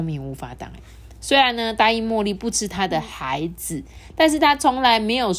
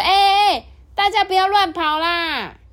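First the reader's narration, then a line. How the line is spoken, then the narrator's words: Hoarse shouting. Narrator (Chinese): 他们喊破了嗓子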